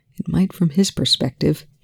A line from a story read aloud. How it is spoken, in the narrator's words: Telford muttered, more to himself than to Volker